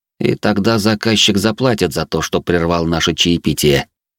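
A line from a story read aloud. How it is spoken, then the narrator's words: Cold tone. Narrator (Russian): добавил холодным тоном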